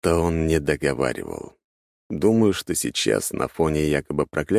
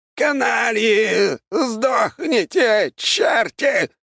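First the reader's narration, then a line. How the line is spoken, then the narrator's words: Shouting. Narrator (Russian): выкрикнул Аполлон Генрихович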